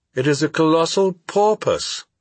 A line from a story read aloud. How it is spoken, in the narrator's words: exclaimed